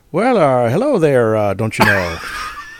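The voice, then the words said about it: Exaggerated upper Midwest accent. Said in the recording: “That's my terrible upper Midwest accent.”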